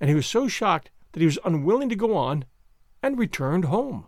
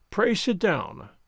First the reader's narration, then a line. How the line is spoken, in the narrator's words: Kovalenko said coldly, with a frown